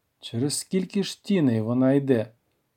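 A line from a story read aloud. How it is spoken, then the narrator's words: Plain. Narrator (Ukrainian): запитав я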